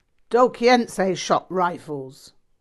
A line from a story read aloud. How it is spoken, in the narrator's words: Rinpoche barked